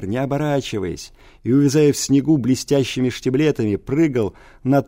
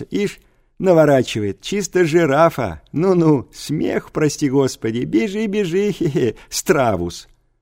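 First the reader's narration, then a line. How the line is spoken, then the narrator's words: Noisy laughing schoolboys. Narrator (Russian): с шумом и хохотом вылетели гимназисты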